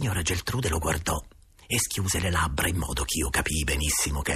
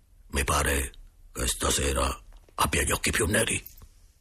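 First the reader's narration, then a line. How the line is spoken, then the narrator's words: Low voice. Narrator (Italian): Il direttore disse a bassa voce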